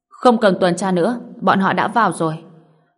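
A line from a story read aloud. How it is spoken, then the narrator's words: Icy bark. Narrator (Vietnamese): Cặp mắt của Ruth trở nên lạnh băng, quát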